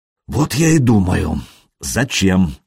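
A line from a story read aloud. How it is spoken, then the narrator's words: Sighing. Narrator (Russian): вздохнул Рерих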